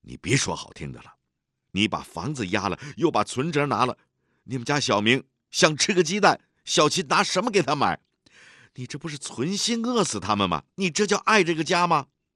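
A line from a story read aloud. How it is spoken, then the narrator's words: Angry interruption. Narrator (Chinese): 毛小妹 愤怒地打断他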